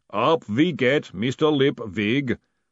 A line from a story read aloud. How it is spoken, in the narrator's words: said the booming voice